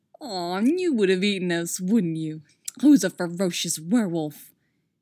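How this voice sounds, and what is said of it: Sing-song baby voice. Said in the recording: “the most annoying baby voice ever ... that sing-song tone”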